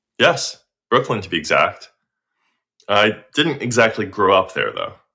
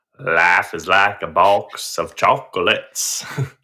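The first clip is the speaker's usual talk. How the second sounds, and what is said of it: Forrest Gump impression, Alabama accent. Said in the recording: “I hear this accent. It's from Alabama, and you're Forrest Gump.”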